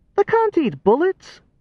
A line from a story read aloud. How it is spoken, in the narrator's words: laughed a cackling laugh